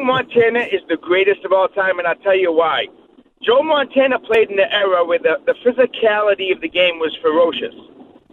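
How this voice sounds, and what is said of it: Boston accent. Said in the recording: “talks with a Boston accent”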